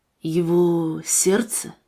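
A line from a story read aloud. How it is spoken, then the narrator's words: Quiet breathless question. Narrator (Russian): тихо спросил Дэвид, переведя дыхание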